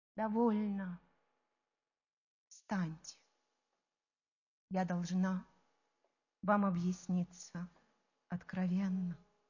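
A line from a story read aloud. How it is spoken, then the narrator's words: Quiet. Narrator (Russian): тихо она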